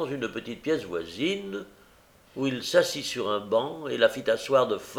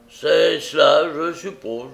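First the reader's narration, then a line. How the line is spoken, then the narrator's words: Growled. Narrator (French): gronda Sykes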